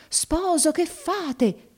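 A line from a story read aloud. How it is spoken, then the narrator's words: Shouting. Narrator (Italian): gridò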